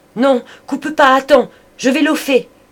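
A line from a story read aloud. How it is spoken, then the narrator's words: Anguished shout. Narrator (French): Il cria, le cœur torturé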